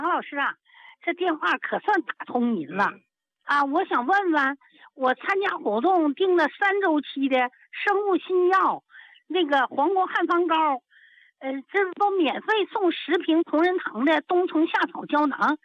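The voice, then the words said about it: Northeastern Chinese accent. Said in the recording (Chinese): “我听你的口音呀、啊，咋一股子东北味儿啊？”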